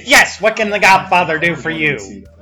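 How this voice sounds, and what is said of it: Gobbler character voice. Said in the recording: “slips into her gobbler accent ... Gobbler accent. Do your gobbler voice.”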